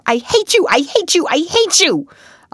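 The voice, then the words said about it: Choked, angry shouting voice. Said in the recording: “in a choked voice”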